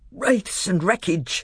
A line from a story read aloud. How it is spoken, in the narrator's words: gasped Trumpkin in the ghost of a voice